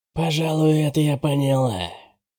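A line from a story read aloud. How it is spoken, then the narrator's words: Quiet, dangerous voice. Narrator (Russian): сказала Генри тихим, опасным голосом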